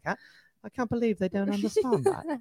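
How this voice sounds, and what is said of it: Bad put-on UK accent. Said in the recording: “That's a worst UK accent.”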